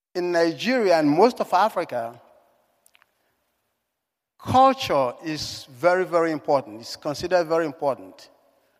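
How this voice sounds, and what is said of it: African accent. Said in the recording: “If my accent hasn't given it away, I was born in Africa.”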